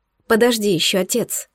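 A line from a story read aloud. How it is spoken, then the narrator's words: Whispering in sleep. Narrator (Russian): Прошептала она во сне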